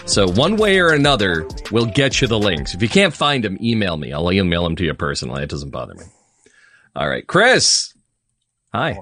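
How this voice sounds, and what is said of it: Game show host voice. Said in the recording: “I slip into my old game show voice”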